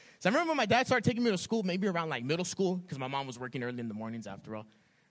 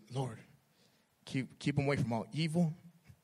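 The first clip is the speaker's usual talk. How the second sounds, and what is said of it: Imitation of father's accent. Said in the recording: “like my dad's accent”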